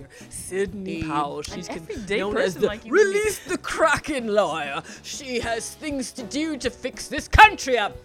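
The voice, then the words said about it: Put-on accent. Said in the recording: “Not sure why I did the accent.”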